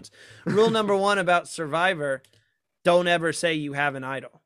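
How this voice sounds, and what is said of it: Attempted Australian accent. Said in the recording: “I'm trying my Australian accent. I had to try it at least once.”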